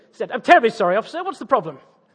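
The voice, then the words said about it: Exaggerated British accent. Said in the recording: “the Americans love a British accent. So I'll just crank up the Britishness.”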